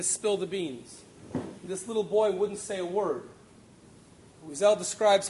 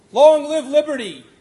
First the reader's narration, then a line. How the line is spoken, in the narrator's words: cried the two adults